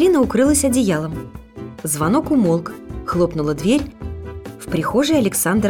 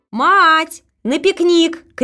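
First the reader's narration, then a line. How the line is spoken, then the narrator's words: Shouting. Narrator (Russian): крикнула Александра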